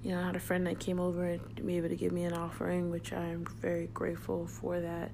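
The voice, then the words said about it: Very chill, mellow voice. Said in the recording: “my voice is kind of like super chill, super mellow”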